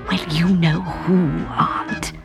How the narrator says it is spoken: he whispered nervously

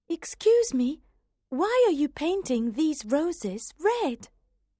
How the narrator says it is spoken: Alice was very curious, asked timidly

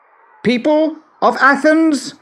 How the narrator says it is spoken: he shouted

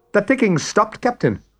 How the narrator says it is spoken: cried Smee

